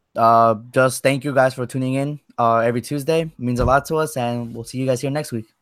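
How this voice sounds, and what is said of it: Flat monotone delivery. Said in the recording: “even though it sounded very monotone ... you are very monotone”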